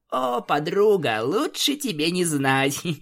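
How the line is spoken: Laughing. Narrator (Russian): посмеялась Рейнбоу

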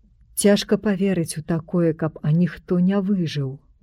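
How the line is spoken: Sighing. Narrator (Belarusian): уздыхнуў доктар Савіч

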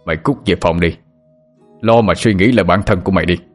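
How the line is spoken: Grumbling, then shouting. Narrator (Vietnamese): Người trên bảo tọa ầm ừ rồi quát lên

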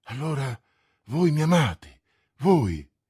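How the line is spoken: Exclaiming. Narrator (Italian): esclamò

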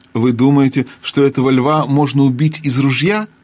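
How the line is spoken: Plain. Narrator (Russian): спросил Диггери

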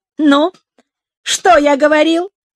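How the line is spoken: Rude. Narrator (Russian): Я грубо сказал

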